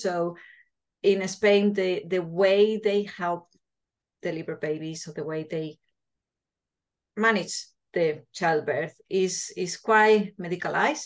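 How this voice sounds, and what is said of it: Spanish accent. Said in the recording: “as you can see from my accent, I'm Spanish”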